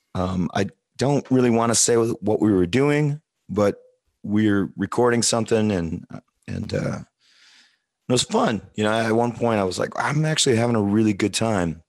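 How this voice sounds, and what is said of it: Slightly hoarse voice. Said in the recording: “which is why I sound a little hoarse”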